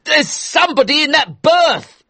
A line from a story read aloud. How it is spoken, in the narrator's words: shouted, his eyes big and scared